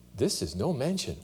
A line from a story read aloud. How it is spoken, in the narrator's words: said firstborn